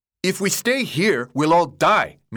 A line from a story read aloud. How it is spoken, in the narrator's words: Minho yelled